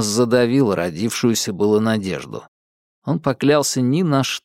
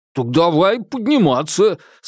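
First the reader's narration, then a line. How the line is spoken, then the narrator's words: Overly joyful shout. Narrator (Russian): слишком уж радостно крикнул Фрайпан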